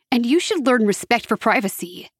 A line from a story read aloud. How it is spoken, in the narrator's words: I snapped